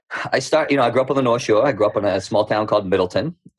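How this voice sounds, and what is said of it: Thick Boston accent. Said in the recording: “my accent will probably come out a little thicker. ... She makes fun of me all the time about my accent.”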